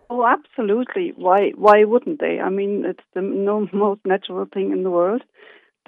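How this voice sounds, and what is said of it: Slight German accent. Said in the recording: “You have a slight accent there ... we're originally from Germany”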